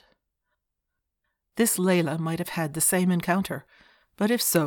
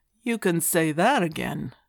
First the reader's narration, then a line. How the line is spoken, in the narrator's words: he could hear McCoy drawling